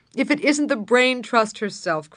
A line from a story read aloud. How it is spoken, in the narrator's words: cried Wallace